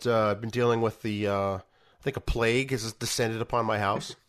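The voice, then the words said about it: Rough, hoarse voice. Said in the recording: “my voice is still a little bit rough”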